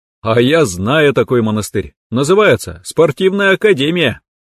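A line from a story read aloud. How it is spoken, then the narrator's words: Declaration after laughing. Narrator (Russian): Посмеявшись, я заявил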